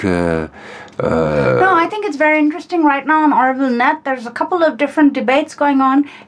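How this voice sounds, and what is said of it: Speaks with an accent. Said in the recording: “I appreciate a lot your accent.”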